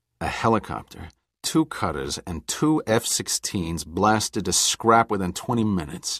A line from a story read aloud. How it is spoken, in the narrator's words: Giordino muttered